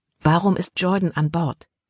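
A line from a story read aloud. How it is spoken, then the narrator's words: Plain. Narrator (German): fragte Libby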